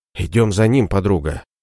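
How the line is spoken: Whisper. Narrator (Russian): прошептала Дарина

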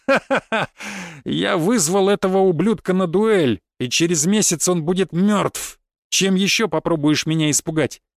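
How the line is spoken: Loud laughter. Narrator (Russian): расхохотался я

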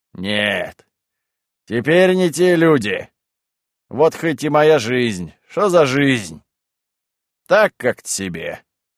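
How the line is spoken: Sighing, continuing. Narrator (Russian): вздохнувши, продолжал

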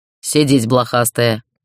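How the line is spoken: Commanding. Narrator (Russian): оборвалось приказом

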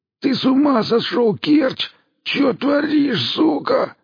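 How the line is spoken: Hoarse wheeze. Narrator (Russian): сипел Мамай

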